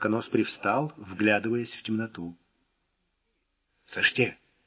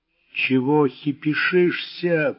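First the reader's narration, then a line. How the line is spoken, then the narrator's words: Through clenched teeth. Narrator (Russian): процедил зубач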